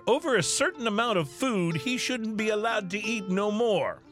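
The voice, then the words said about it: Put-on Florida accent. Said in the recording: “That's the best Florida accent I've ever heard.”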